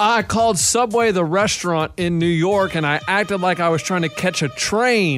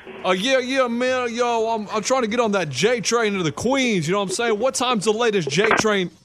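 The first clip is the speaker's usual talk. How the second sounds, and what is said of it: Put-on New York accent. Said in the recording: “what's that accent? ... That's about New York.”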